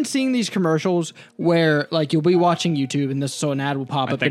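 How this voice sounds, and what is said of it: Usual voice. Nothing is said of it.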